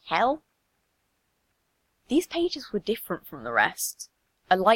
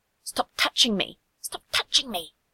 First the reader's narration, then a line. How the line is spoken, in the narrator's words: one whispering sharply